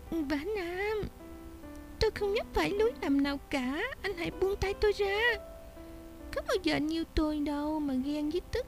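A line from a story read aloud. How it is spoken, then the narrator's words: Soft moan. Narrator (Vietnamese): Nàng khẽ rên lên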